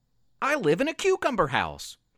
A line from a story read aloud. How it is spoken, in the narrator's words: Luke said excitedly